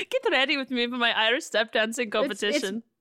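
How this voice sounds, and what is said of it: Mixed, placeless put-on accent. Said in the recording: “I don't know what accent this is. ... It's morphed into every accent that will be demonstrated at the World Championships. ... It's kind of like Madonna's accent where it's like it belongs to no country now.”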